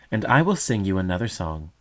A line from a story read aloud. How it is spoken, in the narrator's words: exclaimed the mother